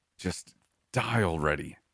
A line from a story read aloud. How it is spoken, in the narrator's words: he snarled